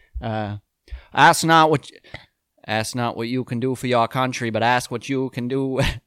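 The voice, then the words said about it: Kennedy impression. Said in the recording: “Let me try and regain my Kennedy ... What's the famous shit that Kennedy says?”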